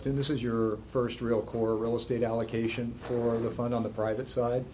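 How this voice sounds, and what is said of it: Voice strained by chest cold. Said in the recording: “pardon my voice ... I've got a little bit of a chest cold”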